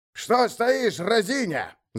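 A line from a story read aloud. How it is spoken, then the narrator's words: Shout. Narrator (Russian): закричал Ховгоди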